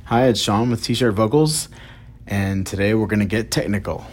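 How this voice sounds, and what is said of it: Raspy voice. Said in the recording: “excuse my raspy voice. I actually shouted to my kids in the backyard and did not use correct vocal technique.”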